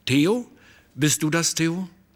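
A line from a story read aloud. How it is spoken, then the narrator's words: Calling out. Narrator (German): rief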